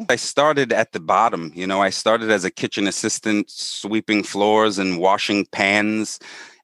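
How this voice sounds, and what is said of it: Brooklyn accent. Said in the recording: “I have a talk with a Brooklyn accent.”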